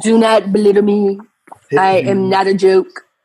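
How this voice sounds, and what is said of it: Imitates another person's voice. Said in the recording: “her impersonation like spot on”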